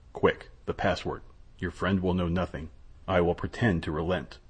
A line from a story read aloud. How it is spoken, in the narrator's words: said in a low voice